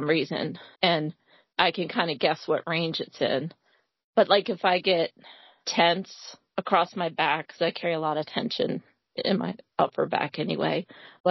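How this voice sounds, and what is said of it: Cracky, strained voice. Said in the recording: “my voice is cracky”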